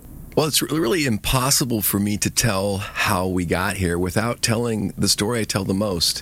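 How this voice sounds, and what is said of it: Hoarse voice. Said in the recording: “Pardon the hoarse voice. ... It was the Ducks game last night”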